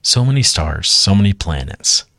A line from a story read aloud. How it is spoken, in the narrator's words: sighed Geraldine